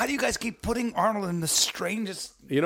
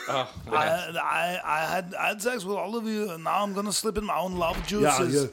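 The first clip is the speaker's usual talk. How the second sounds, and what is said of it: Imitated voice with Austrian accent. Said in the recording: “It's just ... voice with an Austrian accent. ... it doesn't actually sound like that.”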